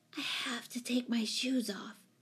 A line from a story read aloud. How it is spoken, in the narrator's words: whispered urgently